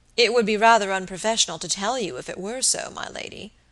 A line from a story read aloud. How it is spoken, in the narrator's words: answered Robert gravely